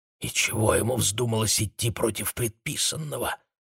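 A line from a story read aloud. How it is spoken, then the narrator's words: Whispering. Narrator (Russian): шептались одни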